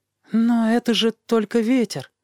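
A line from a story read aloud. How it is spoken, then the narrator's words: Uncertain objection. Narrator (Russian): возразил он неуверенным голосом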